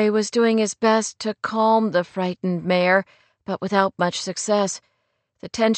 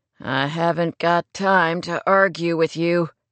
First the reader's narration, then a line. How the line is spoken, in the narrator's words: he said through clenched teeth